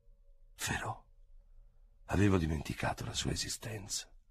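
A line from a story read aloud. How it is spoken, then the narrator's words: Involuntary murmur. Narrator (Italian): Involontariamente mormorò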